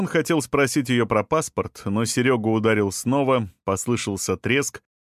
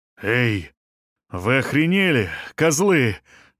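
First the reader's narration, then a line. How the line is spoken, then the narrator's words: Roaring. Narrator (Russian): взревел он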